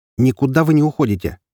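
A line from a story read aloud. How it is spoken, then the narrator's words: Sharp. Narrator (Russian): резко сказал я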